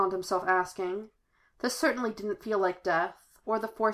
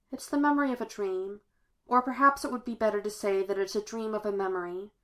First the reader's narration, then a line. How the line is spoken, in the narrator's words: Obi-Wan sighed